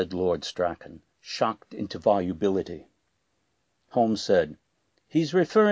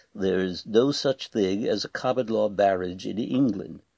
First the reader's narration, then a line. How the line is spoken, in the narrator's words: the peer said stiffly